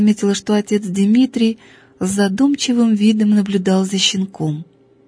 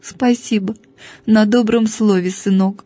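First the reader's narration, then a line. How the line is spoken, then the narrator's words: Sobbing. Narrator (Russian): всхлипнула Евангелия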